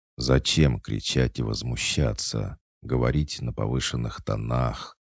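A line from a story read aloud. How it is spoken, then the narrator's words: Gentle inquiry. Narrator (Russian): Ласково поинтересовался он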